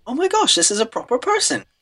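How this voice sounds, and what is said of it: Bad imitated accent. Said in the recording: “It was a really bad accent.”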